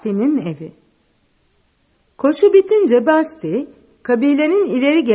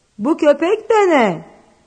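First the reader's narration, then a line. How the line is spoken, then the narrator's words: Fierce, frightening shout. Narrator (Turkish): diye bağırdı vahşi köpeği korkutan bir sesle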